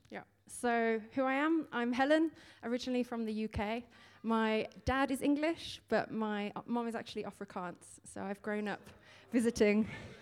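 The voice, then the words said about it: Slight British accent. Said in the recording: “I detected a bit of a British accent there”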